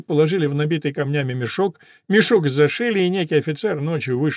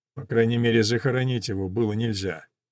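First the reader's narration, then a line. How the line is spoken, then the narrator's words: Muttering. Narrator (Russian): пробормотал барон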